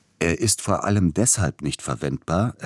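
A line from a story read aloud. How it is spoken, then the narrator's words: Explaining with quiet chuckle. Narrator (German): erklärte Peter und lachte leise in sich hinein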